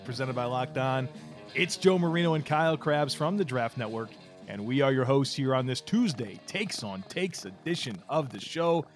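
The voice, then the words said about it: Strained, worn-out voice. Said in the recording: “we started this thing off with a little voice crack there ... I think my voice is still bouncing back from talking for like 4 hours.”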